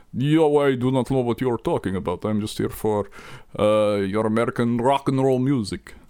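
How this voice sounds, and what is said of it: Put-on Russian accent. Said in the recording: “your Russian accent's comrade, pretty solid”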